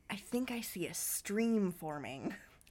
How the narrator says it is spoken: Cherie whispered in her ear

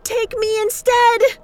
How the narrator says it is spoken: she screamed

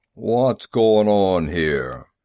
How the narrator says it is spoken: It was a booming voice, with a quality that dragged at the attention of the crowd

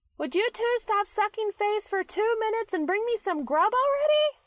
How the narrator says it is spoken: Charlie shouts from the living room

